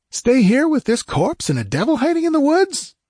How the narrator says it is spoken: yelped

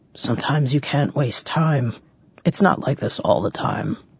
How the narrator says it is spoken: Croker grunted

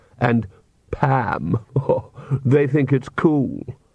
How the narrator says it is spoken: sneered Vlad

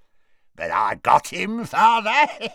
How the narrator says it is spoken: cackled Morfin

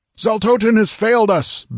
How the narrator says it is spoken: bellowed Ymelric furiously

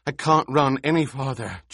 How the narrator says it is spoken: Jessica panted

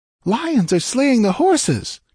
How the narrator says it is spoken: cried Valeria

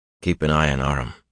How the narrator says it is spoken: he said quietly

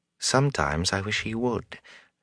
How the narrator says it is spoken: Gawain said softly for Rand's ear

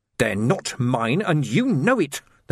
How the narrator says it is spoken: the man snarled

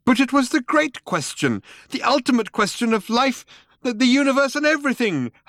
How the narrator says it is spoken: howled Loonqual

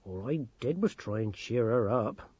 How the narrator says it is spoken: mumbled Granny Morky

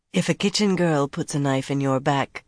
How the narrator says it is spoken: Semirag said coolly

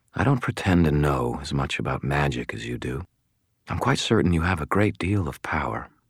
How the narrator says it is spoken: she said quietly

